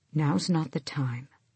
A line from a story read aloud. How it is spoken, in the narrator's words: Dorian said quietly